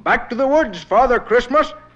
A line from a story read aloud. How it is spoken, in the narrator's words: shouted with a laugh